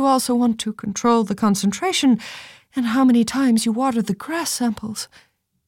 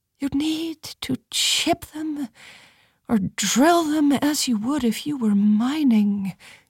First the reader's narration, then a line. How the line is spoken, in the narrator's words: she said almost dreamily